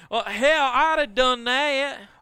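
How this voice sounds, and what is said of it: Put-on Southern US accent. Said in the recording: “I was nailing the southern accent ... that's probably the wrong kind of southern accent I was doing”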